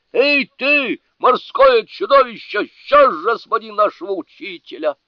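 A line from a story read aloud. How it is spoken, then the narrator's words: Full-force yell. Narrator (Russian): во всю мощь заорал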